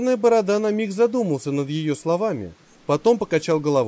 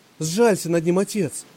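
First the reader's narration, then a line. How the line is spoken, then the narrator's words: Pleading. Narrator (Russian): взмолилась Анжелика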